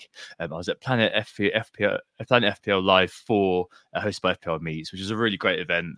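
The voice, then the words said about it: Hoarse, deep voice. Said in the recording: “As you can probably tell by the hoarse voice, I really do sound like a man this week”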